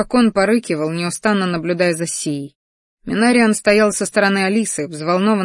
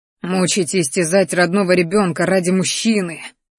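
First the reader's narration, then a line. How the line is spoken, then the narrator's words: Angry growl. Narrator (Russian): рычал злобно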